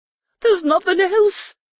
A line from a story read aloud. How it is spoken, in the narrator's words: Genitri said, the words coming out a whimper